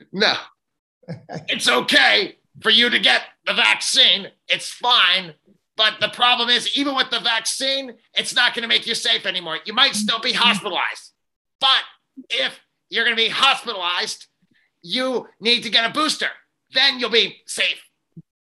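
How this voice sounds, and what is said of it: Imitates another person's voice. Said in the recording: “my Dr. Anthony Fauci impersonation.”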